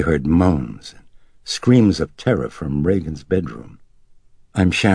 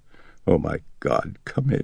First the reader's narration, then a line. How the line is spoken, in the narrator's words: she said in a quavering voice